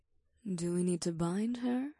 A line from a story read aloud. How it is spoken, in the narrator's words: Ada asked in a whisper